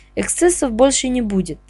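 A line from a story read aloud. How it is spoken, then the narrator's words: Quiet, very convincing. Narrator (Russian): произнес директор негромко, но чертовски убедительно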